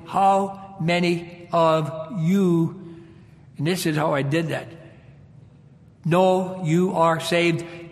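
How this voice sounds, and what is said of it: Upper Michigan Finnish brogue. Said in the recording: “It's probably my brogue. I know I'm hard to understand a lot of times as a UP Michigan Finn.”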